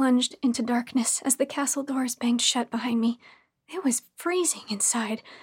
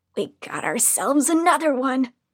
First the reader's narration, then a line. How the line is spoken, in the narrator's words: I heard one of the women snarl